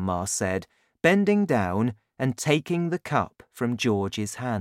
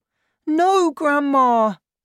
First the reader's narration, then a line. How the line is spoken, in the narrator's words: George cried